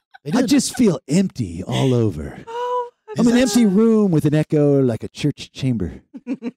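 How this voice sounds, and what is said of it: Imitates another person's voice. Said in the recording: “Is that supposed to be me? Your impersonation of me?”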